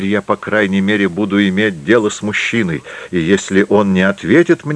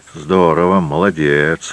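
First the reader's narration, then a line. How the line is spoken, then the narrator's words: Grumbling. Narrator (Russian): ворчал класс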